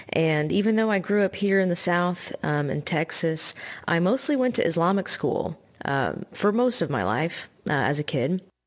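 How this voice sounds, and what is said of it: Slight Southern twang. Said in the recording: “The white side of me is pretty southern, if you can't tell by the little bit of twang in my accent.”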